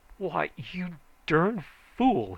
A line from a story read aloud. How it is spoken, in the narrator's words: he screamed